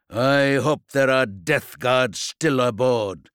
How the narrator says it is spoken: growled, out for blood

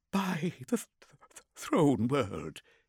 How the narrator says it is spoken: he stammered

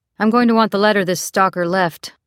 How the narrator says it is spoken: Clutterbuck said

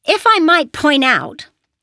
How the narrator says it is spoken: Perry said in a loud voice that echoed around the large stone chamber

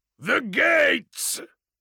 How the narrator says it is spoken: Kul roared

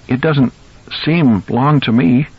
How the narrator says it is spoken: Ellie said, and now her voice trembled

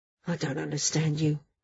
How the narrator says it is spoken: Doral said quietly

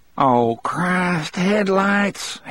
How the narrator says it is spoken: Harry moaned

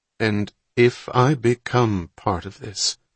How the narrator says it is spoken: Hatch said more slowly

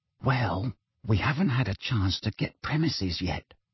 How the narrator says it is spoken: said Fred, dropping his voice even lower

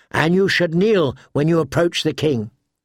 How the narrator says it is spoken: Brian the Blue corrected sharply

